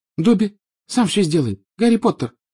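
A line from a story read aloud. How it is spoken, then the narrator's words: Tearful squeak. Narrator (Russian): пропищал Добби, и его большие, как теннисные мячики, глаза наполнились слезами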